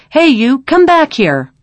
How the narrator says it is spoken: yelled

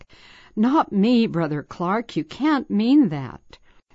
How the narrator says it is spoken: sensed immediately my inability and limitations, and I cried back

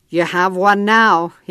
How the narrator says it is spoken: he growled

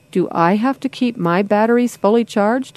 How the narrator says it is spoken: Mom chuckled

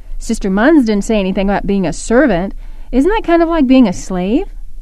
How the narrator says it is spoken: Mom laughed

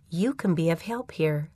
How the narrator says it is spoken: the Spirit whispered

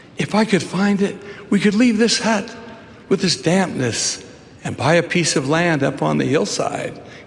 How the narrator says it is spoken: pleaded

